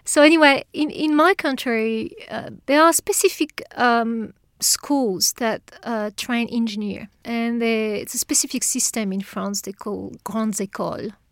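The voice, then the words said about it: French accent. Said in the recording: “I come from France, but you can tell from the accent, I'm sure.”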